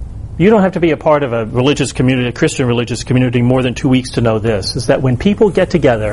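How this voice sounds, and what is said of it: Usual voice. Nothing is said of it.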